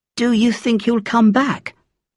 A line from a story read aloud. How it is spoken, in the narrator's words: Auntie Suiying asked